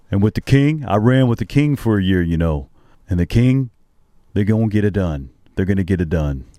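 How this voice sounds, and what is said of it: Shaquille O'Neal impression. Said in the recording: “You said you had a Shaq impersonation, and you have a Shaq impersonation.”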